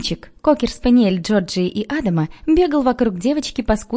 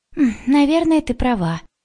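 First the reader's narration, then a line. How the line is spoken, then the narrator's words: Sigh. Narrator (Russian): вздохнула Джорджия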